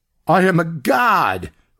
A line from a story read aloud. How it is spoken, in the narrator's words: Rigby shouted